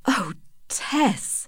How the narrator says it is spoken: said in a low voice

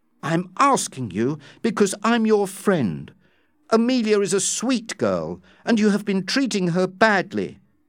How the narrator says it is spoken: exclaimed Dobbin

